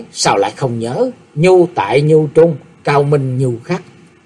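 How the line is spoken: Smiling. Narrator (Vietnamese): Nhất Hạt Đạo Nhân mỉm cười nói

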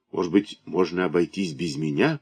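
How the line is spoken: Mumbling. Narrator (Russian): пробормотал я

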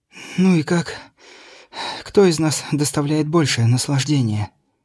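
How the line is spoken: Exhausted breathless exhale. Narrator (Russian): обессиленно рухнув, выдохнула

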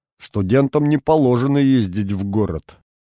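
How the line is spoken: Grumble. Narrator (Russian): пробурчал

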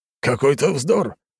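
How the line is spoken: Man's scoffing snort. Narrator (Russian): хмыкнул мужчина

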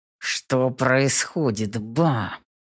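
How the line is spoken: Hissed through clenched teeth. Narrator (Russian): Цыжу сквозь зубы

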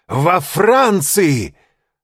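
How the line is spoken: Shouted. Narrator (Russian): закричал он

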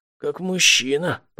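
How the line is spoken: Exhausted wheeze. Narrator (Russian): прохрипел из последних сил Инвар

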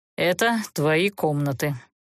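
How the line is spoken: Dry, growing irritation. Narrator (Russian): сухо объявил герцог, начиная злиться на молчаливую наемницу

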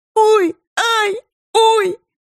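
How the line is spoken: Squealing. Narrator (Russian): визжал Серебрин

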